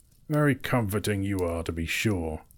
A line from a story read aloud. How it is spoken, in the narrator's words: growled Thorin